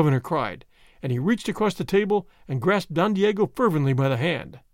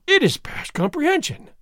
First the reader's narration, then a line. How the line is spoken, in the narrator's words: Don Diego exclaimed